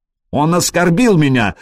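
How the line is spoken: Shout. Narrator (Russian): закричал Траин

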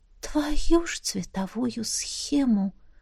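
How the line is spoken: Quiet curse. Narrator (Russian): тихо ругнулась она

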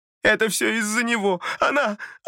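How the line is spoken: Bursting into sobs. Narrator (Russian): И разразилась рыданиями

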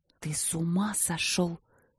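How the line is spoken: Through gritted teeth. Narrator (Russian): процедила Вики

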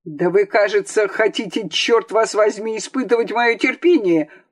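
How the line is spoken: Shouting. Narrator (Russian): крикнул Аларин

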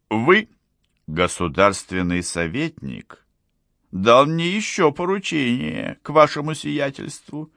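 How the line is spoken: Calm voice. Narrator (Russian): сказал барон спокойным голосом

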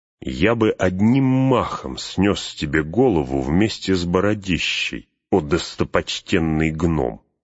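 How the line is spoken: Hissed through teeth. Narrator (Russian): процедил Эумер

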